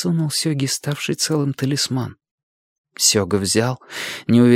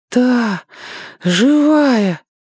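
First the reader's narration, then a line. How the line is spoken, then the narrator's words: Breathless, sobbing. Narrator (Russian): выдохнул Сёга и всхлипнул опять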